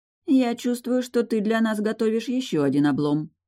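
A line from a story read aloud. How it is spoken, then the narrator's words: Grumbling ferrywoman. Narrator (Russian): проворчала паромщица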